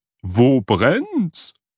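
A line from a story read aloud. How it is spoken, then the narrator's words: Calling out. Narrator (German): rief sie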